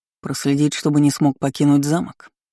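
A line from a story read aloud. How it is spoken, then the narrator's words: Gloomy clarifying question. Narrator (Russian): Уточнил мрачно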